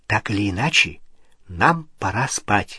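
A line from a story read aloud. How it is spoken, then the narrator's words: Whispered. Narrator (Russian): прошептала Гермиона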